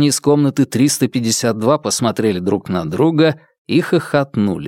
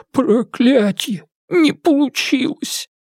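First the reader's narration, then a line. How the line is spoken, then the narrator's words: Loud laughter. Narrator (Russian): не удержался и громко рассмеялся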